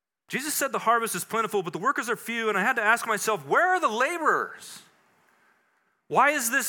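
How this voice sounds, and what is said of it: Usual voice. Nothing is said of it.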